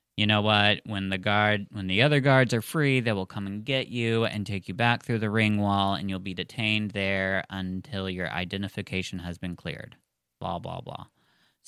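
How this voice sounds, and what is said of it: Flat robotic monotone voice. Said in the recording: “He sounds like a robot.”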